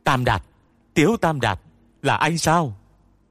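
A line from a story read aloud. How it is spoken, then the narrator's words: Sudden shout. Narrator (Vietnamese): Ông ta đột nhiên hét lên với không khí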